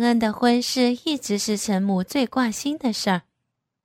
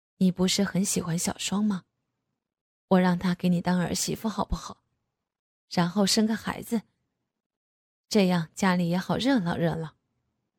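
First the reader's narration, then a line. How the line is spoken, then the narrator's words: Softened voice. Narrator (Chinese): 声音柔和了下来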